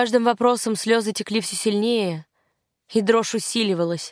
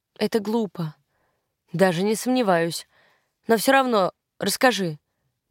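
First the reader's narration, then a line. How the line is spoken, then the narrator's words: Gentle request. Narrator (Russian): мягко попросил он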